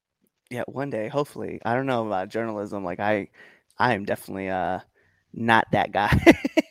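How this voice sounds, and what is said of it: Southern-sounding American accent. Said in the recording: “Your accent reminds me of a friend of mine from college, who he had a southern accent. ... when I hear your accent, my immediate thought is Arizona”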